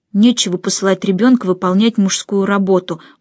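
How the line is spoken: Gloomy mutter. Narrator (Russian): мрачно пробормотал Нико

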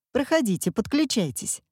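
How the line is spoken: Cheerful invitation. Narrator (Russian): радостно пригласила активистка

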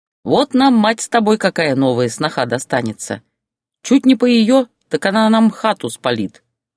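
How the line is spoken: Snorting. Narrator (Russian): хмыкнул Валера

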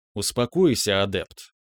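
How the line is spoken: Even tone. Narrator (Russian): тем же ровным тоном произнес собеседник

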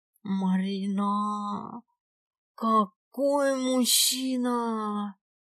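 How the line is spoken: Blissful moan. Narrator (Russian): Блаженно простонала Аленка

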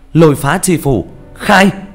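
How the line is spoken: Loud ringing shout. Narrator (Vietnamese): một tiếng hét vang lên

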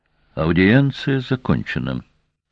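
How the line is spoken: Icy tone. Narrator (Russian): ледяным тоном сказала Домгар

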